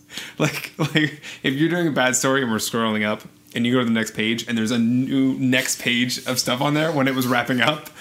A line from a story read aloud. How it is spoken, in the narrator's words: I chuckle